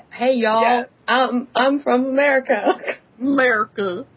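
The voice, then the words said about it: Put-on Texan American accent. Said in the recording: “my American accent ... Texas”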